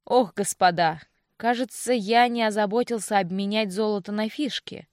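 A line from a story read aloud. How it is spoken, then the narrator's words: Smiling speech. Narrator (Russian): улыбаясь, произнес Винсент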